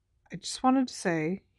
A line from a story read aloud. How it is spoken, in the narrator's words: he mumbled